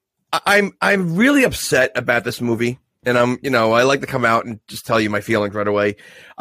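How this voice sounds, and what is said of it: Nasal, congested sick voice. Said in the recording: “I'm a little sick right now. You know, I got a little thing called COVID, so I might sound a little nasally.”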